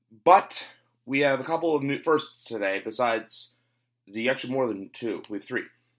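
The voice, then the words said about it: Voice sounds off, has a cold. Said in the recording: “my voice sounds off. ... I'm fighting a bit of a cold. ... I have the common cold. So if you're wondering why my voice is a little off”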